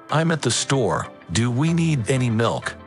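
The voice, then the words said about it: Radio voice. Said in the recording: “do you ever use anything besides your radio voice? ... No, not really.”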